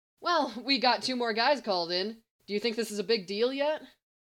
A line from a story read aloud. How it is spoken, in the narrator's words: Guy laughed